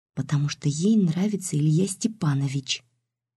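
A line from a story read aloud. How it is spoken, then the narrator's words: Barely audible girl's whisper. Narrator (Russian): едва слышно прошептала девочка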